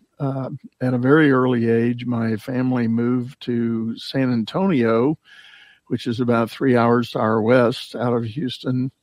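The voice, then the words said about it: Texan accent. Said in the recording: “I have a bit of my own accent. I am a native Texan.”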